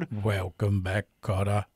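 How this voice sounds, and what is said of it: Unusually deep voice. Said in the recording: “That was a deep voice.”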